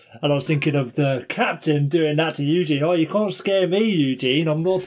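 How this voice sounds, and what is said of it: Usual voice. Nothing is said of it.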